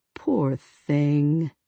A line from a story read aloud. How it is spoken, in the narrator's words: Sarah nearly cooed